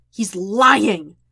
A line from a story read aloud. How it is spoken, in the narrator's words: Jet snarls